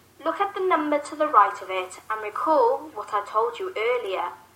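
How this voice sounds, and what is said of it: British accent. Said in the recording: “great British accent, make me feel at home again”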